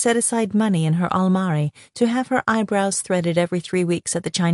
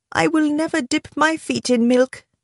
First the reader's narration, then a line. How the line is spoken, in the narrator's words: she whimpered